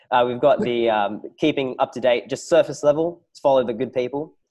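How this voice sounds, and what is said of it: Strained, hoarse voice. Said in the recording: “God, I'm losing my voice here.”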